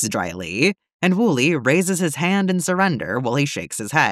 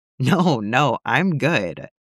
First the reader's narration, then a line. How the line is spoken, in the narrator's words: he laughs